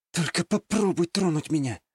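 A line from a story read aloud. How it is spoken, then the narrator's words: Deadly serious whisper to herself. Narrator (Russian): убийственно серьезным тоном шептала сама про себя девушка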